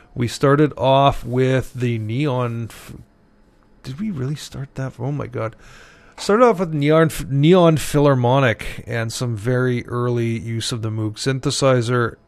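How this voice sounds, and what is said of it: Tired, more monotone than usual. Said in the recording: “sounding a little bit more monotone than usual today, but work really took it out of me this afternoon, so I'm just kind of hanging in”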